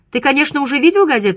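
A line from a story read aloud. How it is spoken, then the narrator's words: Shouted. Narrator (Russian): крикнула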